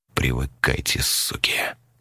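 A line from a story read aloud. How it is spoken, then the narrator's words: Quiet but distinct. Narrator (Russian): Тихо, но внятно сказал он в пустоту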